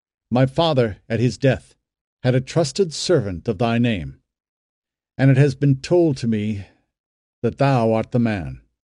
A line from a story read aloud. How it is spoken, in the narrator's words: he said firmly